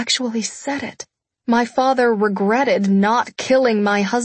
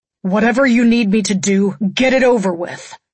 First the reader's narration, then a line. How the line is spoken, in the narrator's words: Wolf barked